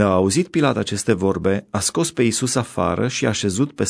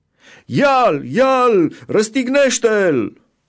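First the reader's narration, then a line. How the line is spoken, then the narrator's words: Shouted. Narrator (Romanian): ei au strigat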